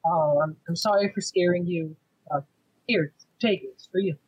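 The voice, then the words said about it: Soft, gentle voice. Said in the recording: “in a soft voice”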